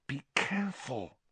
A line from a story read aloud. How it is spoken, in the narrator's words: hissed Hermione